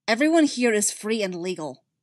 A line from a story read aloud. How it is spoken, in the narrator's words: Barrow snaps